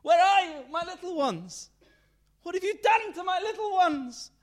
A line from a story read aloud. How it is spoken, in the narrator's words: She screamed across the lake